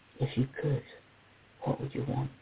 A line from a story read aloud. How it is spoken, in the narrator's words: Jake whispers her with fingers and lips